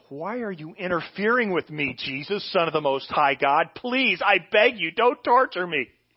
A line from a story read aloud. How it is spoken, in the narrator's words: Then he screamed